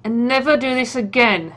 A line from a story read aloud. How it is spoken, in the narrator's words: he growls